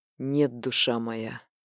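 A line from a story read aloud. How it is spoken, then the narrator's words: Hoarse rasp. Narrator (Russian): прохрипел он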